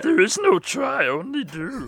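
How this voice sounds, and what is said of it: Yoda character voice. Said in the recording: “trying a Yoda voice ... my Yoda voice is up to par ... you went hard with that one”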